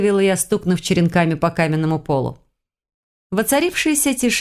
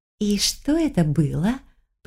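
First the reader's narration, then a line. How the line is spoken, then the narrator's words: Hiss. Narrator (Russian): прошипела я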